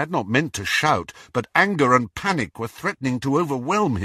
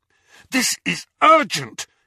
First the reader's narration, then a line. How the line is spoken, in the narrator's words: he said fiercely